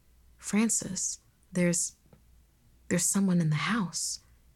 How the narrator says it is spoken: he whispered

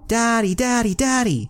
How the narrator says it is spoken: she shouted

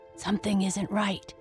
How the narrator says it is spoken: whispered back

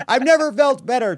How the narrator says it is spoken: Trump shouted

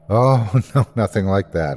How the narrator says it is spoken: laughed

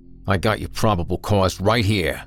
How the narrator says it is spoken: Grizz growled

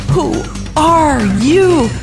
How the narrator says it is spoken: yelled

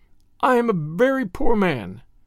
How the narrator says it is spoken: he sobbed

